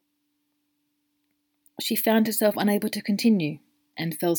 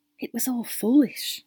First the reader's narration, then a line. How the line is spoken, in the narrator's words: she eventually whispered quietly, unable to meet either of the men's eyes